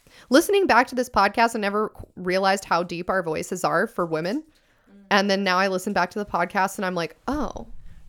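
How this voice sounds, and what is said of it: Hoarse voice from laryngitis, limited pitch. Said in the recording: “I can't go there right now because of my laryngitis. Normally I can go pretty fucking high.”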